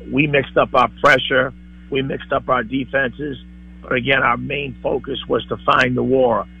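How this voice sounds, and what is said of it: Hoarse Boston East Coast accent. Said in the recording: “The accent ... alone. ... An East Coast. ... That's very Boston. ... this guy sounds like, here's a lozenge.”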